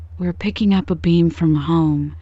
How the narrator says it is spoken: said Herndon anxiously

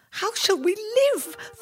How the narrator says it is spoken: the woman cried

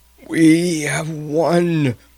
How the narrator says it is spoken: croaked dazedly

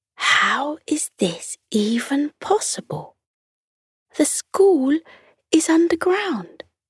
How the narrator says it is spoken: Lily whispered to Jake

